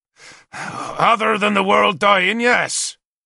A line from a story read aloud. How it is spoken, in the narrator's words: Cathig growled in answer